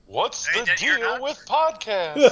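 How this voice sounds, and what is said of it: Terrible Jerry Seinfeld impression. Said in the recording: “terrible Jerry Jerry Seinfeld impression”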